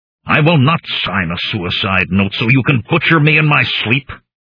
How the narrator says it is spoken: I snarled at him

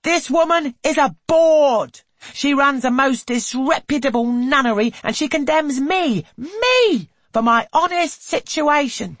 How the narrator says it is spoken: She stands on the step, brandishing her broom, and shrieks to all around

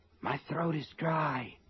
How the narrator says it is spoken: Sean said in a husky whisper

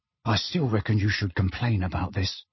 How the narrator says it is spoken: said Ron in a low voice

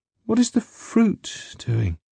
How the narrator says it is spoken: asked, traces of sleep still evident in her quiet voice

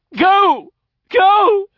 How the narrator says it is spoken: He kept shouting in that high voice

